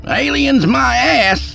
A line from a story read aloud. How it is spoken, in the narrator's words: Skeet hollered